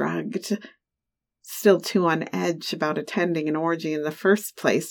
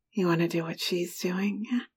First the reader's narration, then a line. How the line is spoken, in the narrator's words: whisper in my ear